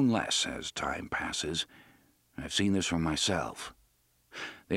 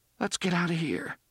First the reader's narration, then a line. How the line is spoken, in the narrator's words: Jake said in a trembling voice